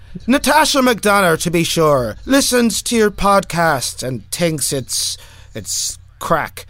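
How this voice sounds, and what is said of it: Put-on Irish accent. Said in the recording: “sounds Irish ... Can I say it Irish?”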